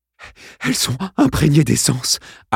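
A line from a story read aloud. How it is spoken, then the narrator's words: Panting. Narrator (French): haleta-t-il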